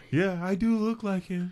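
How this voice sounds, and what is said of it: Imitates another person's voice. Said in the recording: “That was a really good impression. ... That was really good. ... I worked on my Carlos impression.”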